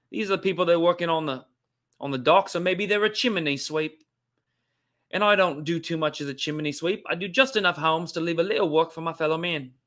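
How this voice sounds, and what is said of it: Weak put-on Cockney accent. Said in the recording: “Do a London Cockney accent ... That's not the best Cockney accent”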